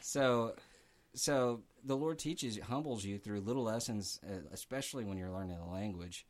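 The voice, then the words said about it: Tennessee accent. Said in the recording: “I was never going to get rid of my Tennessee accent.”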